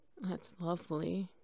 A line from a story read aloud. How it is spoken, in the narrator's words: he hoarsely said